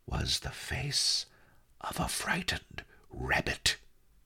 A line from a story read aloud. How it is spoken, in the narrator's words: he whispered